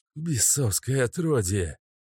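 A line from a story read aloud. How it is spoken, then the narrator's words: Old man's quiet hiss. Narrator (Russian): прошипел старик, но не громко, чтобы не разбудить спящих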